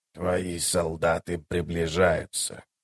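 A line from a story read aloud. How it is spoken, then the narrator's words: Hoarse dead man. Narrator (Russian): хрипло произнес мертвец по-эллински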